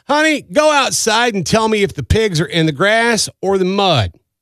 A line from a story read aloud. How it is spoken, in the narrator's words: He yelled